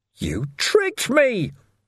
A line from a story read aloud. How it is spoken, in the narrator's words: Ferrick wailed